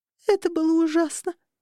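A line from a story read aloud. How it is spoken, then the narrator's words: Sobbing. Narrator (Russian): всхлипнула Ринда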